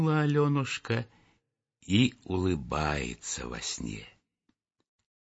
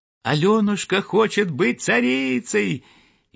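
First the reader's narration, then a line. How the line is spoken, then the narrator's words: Merry ringing voices. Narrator (Russian): Весело звенели полевые колокольчики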